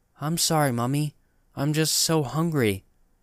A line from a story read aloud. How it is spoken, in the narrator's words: said, in the same flat tone